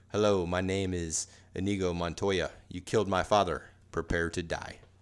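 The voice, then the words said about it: Imitates a movie character's accent. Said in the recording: “I'm not going to be able to do the accent properly ... You've done pretty good with accents”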